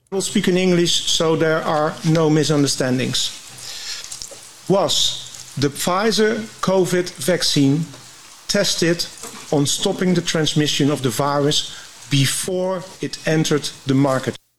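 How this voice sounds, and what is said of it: Heavy foreign accent in English. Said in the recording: “he's got a heavy accent”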